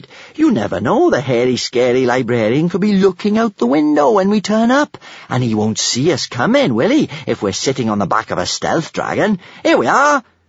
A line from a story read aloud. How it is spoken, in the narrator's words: she said happily